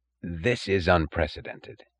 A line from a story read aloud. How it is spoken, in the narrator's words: said